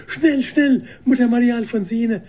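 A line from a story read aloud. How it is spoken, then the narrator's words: Called out. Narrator (German): rief Schwester Katharine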